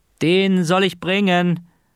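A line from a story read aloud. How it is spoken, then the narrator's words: Called out. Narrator (German): rief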